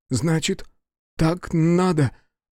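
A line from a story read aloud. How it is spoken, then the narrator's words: Trembling voice. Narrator (Russian): дрожащим голосом ответил Танетомо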